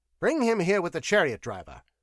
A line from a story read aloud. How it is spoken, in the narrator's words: snapped Demetrio